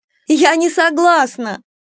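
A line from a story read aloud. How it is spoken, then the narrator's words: Shouting while struggling. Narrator (Russian): кричала я, отбиваясь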